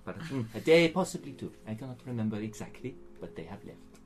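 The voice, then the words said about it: Put-on French accent. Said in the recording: “Didn't think you were going to be trying to do a French accent when you came up with that name”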